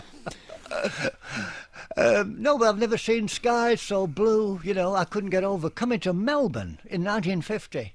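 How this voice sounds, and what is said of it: Slight non-native accent. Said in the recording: “despite the funny way I talk ... Have you got a slight accent?”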